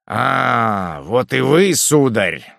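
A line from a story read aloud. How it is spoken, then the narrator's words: Rough voice. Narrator (Russian): сказал министр грубым голосом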